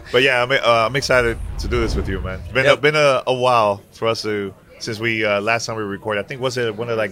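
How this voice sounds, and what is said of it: Raspy, nearly lost voice. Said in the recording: “voices might be a little bit raspy ... my voice is completely gone”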